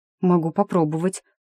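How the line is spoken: Uncertain, thinking aloud. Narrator (Russian): неуверенно сказала, соображая

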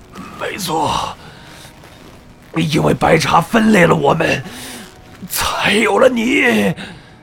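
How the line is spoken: Strained, heavy panting. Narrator (Chinese): 海日谷艰难地咽着唾液，粗喘着说

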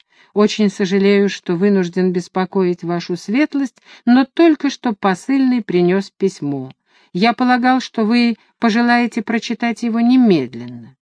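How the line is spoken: Gentle. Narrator (Russian): он мягко произнес

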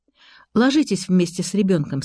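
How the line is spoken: Plain. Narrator (Russian): сказала я Ларисе

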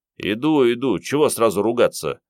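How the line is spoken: Grumbling. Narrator (Russian): заворчал Андрей

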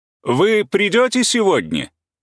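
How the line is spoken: Shout. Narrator (Russian): крикнул Каменский

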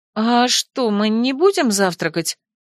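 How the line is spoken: Offended question. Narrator (Russian): обиженно спросила я

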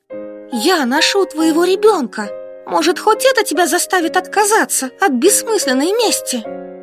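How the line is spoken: Shouting. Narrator (Russian): Последние слова я буквально выкрикнула

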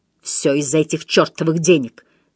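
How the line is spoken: Angry curt remark. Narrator (Russian): сердито бросил Себастьян

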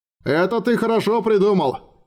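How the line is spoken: Shouted reply. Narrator (Russian): крикнул ему в ответ Хорст

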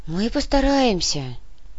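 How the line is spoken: Sighed. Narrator (Russian): вздохнула сотрудница комитета

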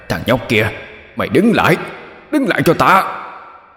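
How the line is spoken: Furious demon yelling. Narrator (Vietnamese): Đại quỷ gào lên phẫn nộ

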